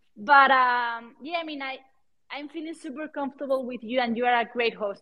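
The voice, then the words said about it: Strong non-native English accent. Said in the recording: “my my accent is super hard, and I know that some people may not, not understand me”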